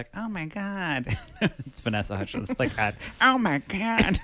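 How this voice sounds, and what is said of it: Imitates another person's voice. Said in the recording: “That's a good impression of Vanessa Hutchins.”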